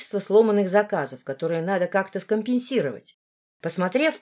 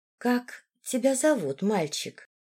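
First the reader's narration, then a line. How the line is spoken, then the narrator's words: Gentle, affectionate question. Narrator (Russian): ласковым голосом спросила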